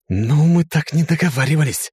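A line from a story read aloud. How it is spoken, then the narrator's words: Hissed. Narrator (Russian): прошипел я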